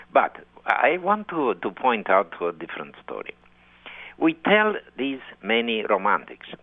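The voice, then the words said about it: Distinctive Romanian accent. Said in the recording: “You have such a distinctive and lovely Romanian accent”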